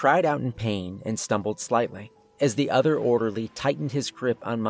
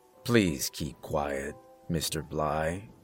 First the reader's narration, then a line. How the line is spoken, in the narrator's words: the first orderly repeated, his voice still calm and professional